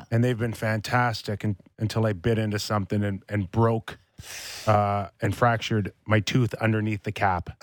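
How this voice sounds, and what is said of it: Speaks with a slight lisp. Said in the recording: “I'm going to sound like I have a lisp ... if I sound a little different”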